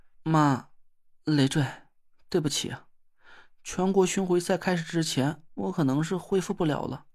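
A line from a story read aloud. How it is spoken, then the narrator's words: Sighing. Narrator (Chinese): 宁珂 叹了口气说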